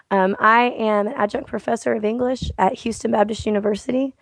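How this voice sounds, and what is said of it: Rough voice from a cold. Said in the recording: “apologize, listeners, right out the gate for my voice. I've been struggling with a cold for about 2 weeks ... my voice is finally somewhat back ... apologies for the roughness. I know it doesn't sound like me.”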